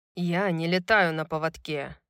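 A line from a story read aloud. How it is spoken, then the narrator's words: Hissing. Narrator (Russian): прошипел Исайя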